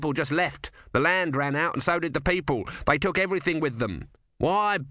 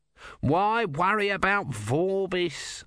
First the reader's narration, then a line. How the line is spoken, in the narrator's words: Om whined